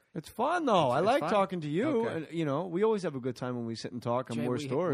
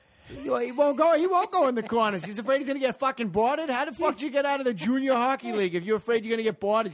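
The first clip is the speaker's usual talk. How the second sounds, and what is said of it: Exaggerated annoying Boston accent. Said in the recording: “a very annoying Boston accent”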